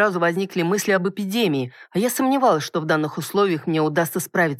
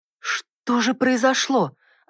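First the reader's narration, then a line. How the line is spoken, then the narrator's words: Worried mutter. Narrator (Russian): обеспокоенно пробормотала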